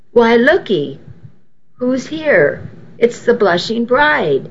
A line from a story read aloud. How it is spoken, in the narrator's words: Nana cried happily